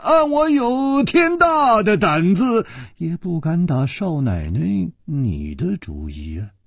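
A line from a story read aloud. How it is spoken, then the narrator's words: Sighing. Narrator (Chinese): 楚留香叹了一口气说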